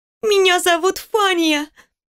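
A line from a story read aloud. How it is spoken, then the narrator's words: Sobbing girl. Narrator (Russian): всхлипывая ответила девочка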